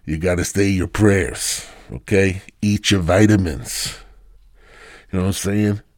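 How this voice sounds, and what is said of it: Impression of a movie boxer character. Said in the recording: “this is Rocky, okay? This is the best fucking Rocky impersonation you're going to get”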